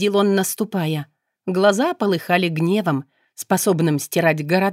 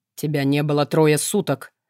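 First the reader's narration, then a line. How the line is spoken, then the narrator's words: Growled in face. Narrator (Russian): прорычала Кара мне в лицо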